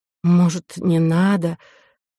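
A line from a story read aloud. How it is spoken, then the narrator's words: Pitiful voice. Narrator (Russian): жалким голосом произнесла Ко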